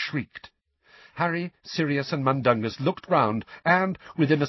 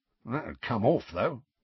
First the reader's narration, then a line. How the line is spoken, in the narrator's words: muttered Mundungus